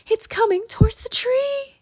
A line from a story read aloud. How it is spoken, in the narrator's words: Annie cried